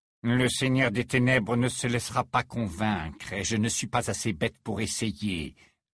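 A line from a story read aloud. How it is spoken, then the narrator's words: Firm, categorical reply. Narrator (French): répondit Rogue d'un ton catégorique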